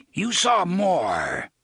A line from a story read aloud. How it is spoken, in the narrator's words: the voice of Cort mimicked savagely